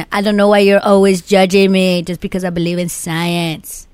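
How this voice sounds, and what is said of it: Put-on accent imitating Nacho Libre character. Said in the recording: “Let me say a little bit more with the accent. ... Nacho Libre.”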